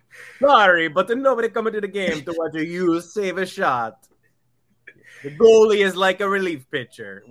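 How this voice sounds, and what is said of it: Put-on Italian accent. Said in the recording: “Why are you doing an accent ... They know you're not Italian.”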